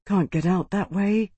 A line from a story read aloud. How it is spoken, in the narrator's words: Tarvi breathed